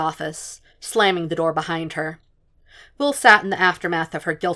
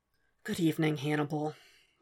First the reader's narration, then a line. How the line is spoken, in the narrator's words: Will said wearily